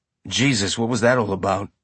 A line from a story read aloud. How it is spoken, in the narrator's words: Amos said quietly